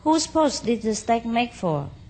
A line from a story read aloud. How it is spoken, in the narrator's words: the courtiers called out to one another